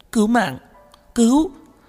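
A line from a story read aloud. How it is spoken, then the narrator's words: Shouted loudly. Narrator (Vietnamese): Dư Y hét lớn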